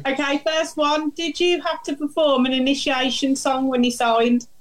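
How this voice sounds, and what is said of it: Brummie (Birmingham) English accent. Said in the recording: “Can you understand my Brummie accent?”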